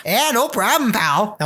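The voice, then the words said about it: Poor Aussie-Canadian accent. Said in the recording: “That was a terrible Aussie Canadian accent... I'm not good at accents”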